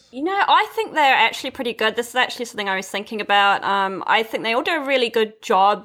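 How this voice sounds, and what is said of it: Mixed New Zealand and English accent. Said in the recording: “my accent is like this weird mix of New Zealand and English”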